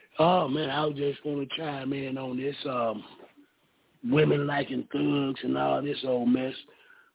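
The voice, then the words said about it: Slightly raspy voice. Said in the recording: “My voice is a little raspy right now”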